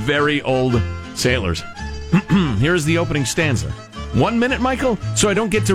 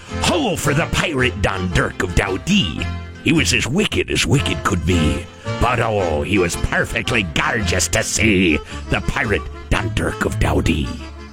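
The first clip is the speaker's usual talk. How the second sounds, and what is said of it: Put-on pirate accent. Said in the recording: “So what's that accent? ... That's the pirate accent”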